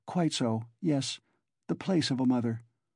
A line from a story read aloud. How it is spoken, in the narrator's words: Sonya answered, timidly and hurriedly